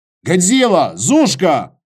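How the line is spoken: Shouted. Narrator (Russian): крикнул Костя

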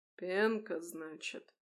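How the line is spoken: Drawled. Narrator (Russian): протянул чиновник

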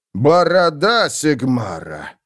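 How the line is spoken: Breathed out. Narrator (Russian): выдохнул фон Гелдрехт

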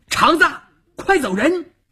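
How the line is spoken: Shout. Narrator (Chinese): 邵月这么一喊

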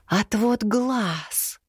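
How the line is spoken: Incredulous whisper. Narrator (Russian): неверяще прошептала кладенец

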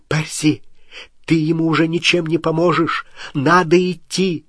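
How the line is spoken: Sharp cry. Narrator (Russian): Гермиона вскрикнула

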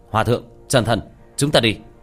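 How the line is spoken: Cold, soft sharp command. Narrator (Vietnamese): Tiểu Thất khuôn mặt đầy lãnh ý, nhẹ giọng quát lên

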